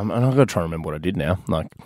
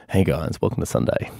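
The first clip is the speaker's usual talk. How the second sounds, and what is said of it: Deep, sexy voice with gravitas. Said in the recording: “sexy voice ... That gravitas.”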